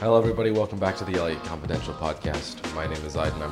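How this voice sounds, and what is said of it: Deep voice from illness. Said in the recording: “has such a deep radio voice. ... is sick.”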